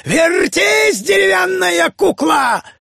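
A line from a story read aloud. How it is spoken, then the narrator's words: Madman screaming horribly. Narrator (Russian): беснующимся безумцем, который беспрестанно кричал ужасным голосом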